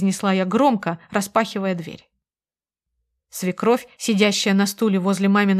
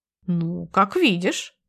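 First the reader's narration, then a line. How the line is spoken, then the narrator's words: Confused. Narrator (Russian): растерянно ответила она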